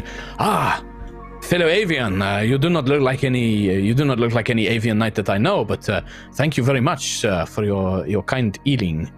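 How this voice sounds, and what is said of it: Put-on French accent. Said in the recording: “why am I French now?... I'm very bad at doing Spanish, so that's why it sounds French.”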